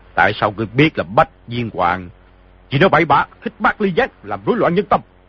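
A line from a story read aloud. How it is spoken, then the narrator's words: Cold. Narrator (Vietnamese): Hồng giáo chủ lạnh lùng nói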